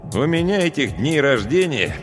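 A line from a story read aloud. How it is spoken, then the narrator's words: Grumble. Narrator (Russian): проворчал я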